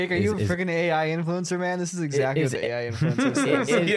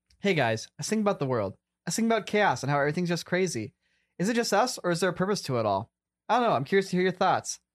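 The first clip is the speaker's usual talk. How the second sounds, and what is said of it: Imitates an AI influencer persona. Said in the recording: “try my best impression of Sam's AI influencer”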